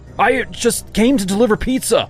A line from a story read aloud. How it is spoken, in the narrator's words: I cried in alarm